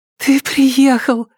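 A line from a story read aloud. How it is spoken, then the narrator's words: Breathless. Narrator (Russian): выдохнула она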